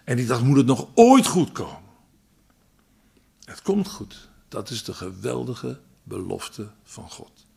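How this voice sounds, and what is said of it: Dutch Holland accent. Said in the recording (Dutch): “Ik met mijn Hollands accent”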